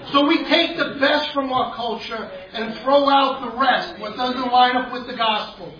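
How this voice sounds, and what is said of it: Brooklyn accent. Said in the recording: “excuse my Brooklyn accent”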